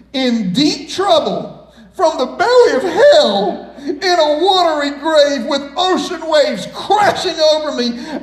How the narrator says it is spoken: I cried

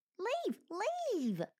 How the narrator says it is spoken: chirped Squeak melodramatically

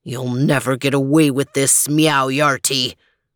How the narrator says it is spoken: growled Overton

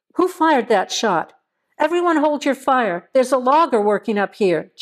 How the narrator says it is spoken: Joe yelled

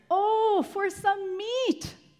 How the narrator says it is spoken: they exclaimed

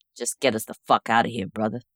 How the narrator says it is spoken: Mick grunted

